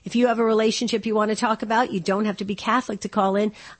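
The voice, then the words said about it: Crackling voice, sounds sick. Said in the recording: “hear it in my voice. My voice is crackling a little bit. I'm still under the weather”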